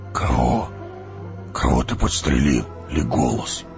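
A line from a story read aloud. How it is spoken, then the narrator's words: Dwarf's hoarse whisper. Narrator (Russian): хриплым шепотом спросил гном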